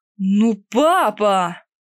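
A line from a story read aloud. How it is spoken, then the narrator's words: Loud childish cry. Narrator (Russian): Громко и настолько по-детски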